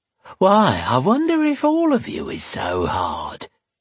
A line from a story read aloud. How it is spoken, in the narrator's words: she breathed, her sour breath hot on his face